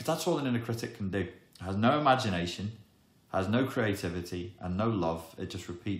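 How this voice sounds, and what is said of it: Usual voice. Nothing is said of it.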